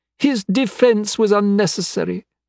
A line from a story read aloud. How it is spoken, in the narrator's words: Emile said haughtily